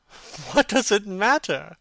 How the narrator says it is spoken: cried Dorian, laughing

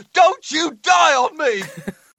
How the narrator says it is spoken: He's got a bead of sweat running down his forehead as he screams

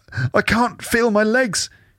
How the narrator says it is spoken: she whimpers, tears welling in her eyes

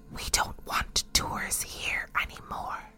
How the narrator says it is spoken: the sound man picked up a little voice that whispered

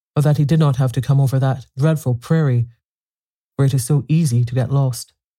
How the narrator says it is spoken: she replied anxiously

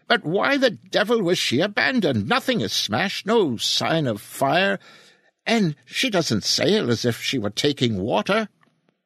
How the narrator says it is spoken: Ichua exclaimed impatiently

